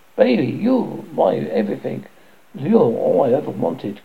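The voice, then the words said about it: Whiny sing-song voice. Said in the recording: “sings a whiny voice.”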